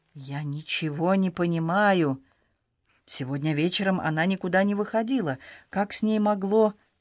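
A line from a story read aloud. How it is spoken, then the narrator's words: Mumbled. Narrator (Russian): он пробормотал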